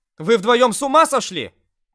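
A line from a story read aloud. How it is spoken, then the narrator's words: Reproachful shout. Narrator (Russian): крикнула на нас блондинка, смотря с порицанием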